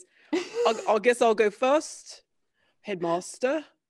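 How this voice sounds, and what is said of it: Put-on accent. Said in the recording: “let me get my accent down”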